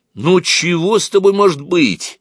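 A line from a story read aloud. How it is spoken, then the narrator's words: Exclamation. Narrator (Russian): воскликнул Антошка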